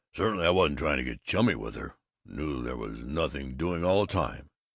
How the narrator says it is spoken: he was snorting

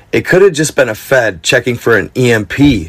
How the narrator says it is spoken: she says

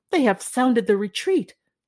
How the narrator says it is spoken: the brave queen cried

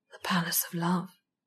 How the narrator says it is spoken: he said softly

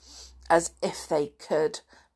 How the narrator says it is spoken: began George scornfully, and then laughed

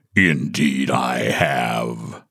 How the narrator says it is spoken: said the bear in a low, deep, growling voice

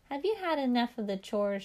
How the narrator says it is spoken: giggled

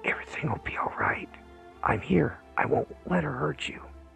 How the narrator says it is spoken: leaned close and whispered

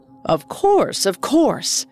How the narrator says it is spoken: Ali Baba eagerly responded

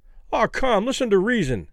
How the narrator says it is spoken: Kelly pleaded

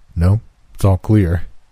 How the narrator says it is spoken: replied

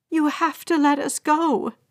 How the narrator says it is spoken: a woman pleaded

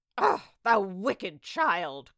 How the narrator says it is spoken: cried the enchantress

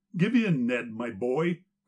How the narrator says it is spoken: cried more than one of the bystanders

